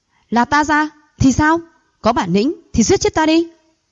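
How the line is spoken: Angry shout. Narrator (Vietnamese): Đoạn Phi Ưng tức giận quát

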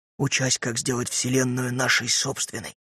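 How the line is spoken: Reverent lowered whisper. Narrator (Russian): шептал Пэт, благоговейно понизив голос

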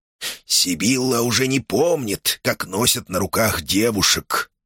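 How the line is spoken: Grumbling into mustache. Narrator (Russian): буркнул себе в усы шаман

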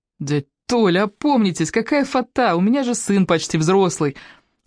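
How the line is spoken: Laughing. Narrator (Russian): Она засмеялась

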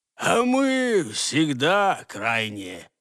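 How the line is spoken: Bitter statement. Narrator (Russian): констатировал горьким голосом присоединившийся к ним новый собеседник

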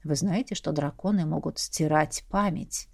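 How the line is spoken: Insinuating whisper. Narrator (Russian): прошептал вкрадчиво Эрден мне на ухо

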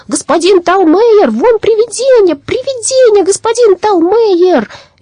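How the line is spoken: Children shrieking and shouting. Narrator (Russian): Девочки начали визжать, а мальчики закричали

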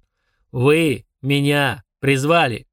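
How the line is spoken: Through gritted teeth. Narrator (Russian): процедил Фурундарок

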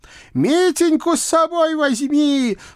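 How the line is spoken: Old witch shouting after someone. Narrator (Russian): прокричала мне вслед баба-яга

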